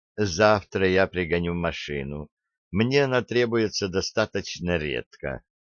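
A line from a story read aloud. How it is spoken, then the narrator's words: Flat even tone. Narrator (Russian): равнодушное выражение, и она произнесла ровным тоном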